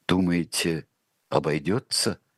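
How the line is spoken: Asked in undertone. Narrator (Russian): спросил царь вполголоса у Шульгина

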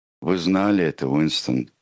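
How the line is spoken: Plain. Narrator (Russian): сказал О'Брайен

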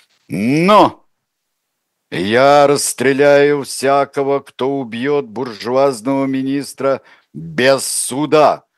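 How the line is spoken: Growl. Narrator (Russian): рыкнул Лев

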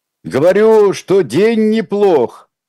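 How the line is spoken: Shouting. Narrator (Russian): прокричал Николай

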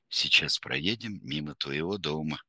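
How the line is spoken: Very quiet. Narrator (Russian): очень тихо сказал мсье Пьер

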